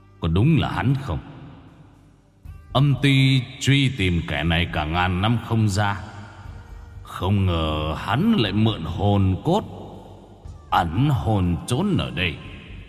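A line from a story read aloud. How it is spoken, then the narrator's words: Cold voice. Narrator (Vietnamese): Ngài giọng lạnh lùng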